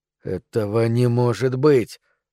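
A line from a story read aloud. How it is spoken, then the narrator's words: Stunned stammering. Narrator (Russian): в ступоре произнес он, запинаясь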